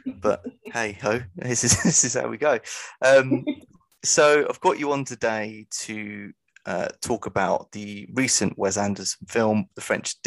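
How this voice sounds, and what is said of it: Stuffy, congested voice. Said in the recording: “I've got a bit of a cold, so I apologise in advance for my dulcet tones. Sound a bit like a zip at the minute. ... Yeah, I kind of sound the same ... two snotty sods”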